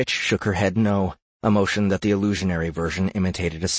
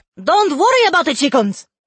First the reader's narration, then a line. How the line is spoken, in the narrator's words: Levy exclaimed